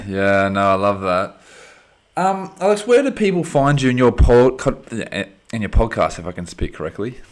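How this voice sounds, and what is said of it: Speaks with a noticeable accent. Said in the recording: “I love your accent, man. I love your accent the whole time.”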